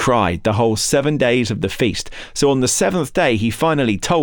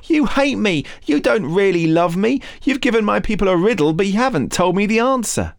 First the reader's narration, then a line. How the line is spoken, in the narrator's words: Samson's wife threw herself on him, sobbing